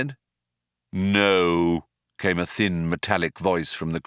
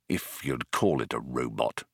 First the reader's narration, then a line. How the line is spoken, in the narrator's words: muttered Arthur